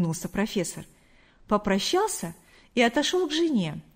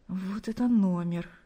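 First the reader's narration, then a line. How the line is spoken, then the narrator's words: Embarrassed whisper to himself. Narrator (Russian): Смущенно улыбаясь, прошептал он себе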